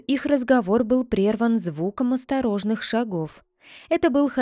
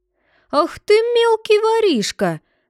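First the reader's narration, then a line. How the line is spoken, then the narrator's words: Angry exclamation. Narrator (Russian): воскликнул рассерженный крестьянин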